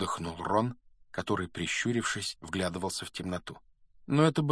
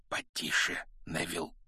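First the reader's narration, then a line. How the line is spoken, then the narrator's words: Whisper. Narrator (Russian): шепнул Рон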